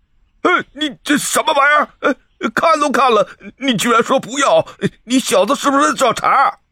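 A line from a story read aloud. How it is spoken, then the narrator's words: Furious roar. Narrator (Chinese): 流浪商人立马就暴跳如雷的吼了出来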